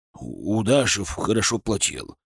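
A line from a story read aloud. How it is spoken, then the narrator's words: Muttered. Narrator (Russian): пробормотал он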